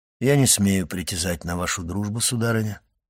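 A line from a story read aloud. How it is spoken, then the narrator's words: Plain. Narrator (Russian): сказал граф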